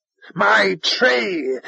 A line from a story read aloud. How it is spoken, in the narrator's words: screamed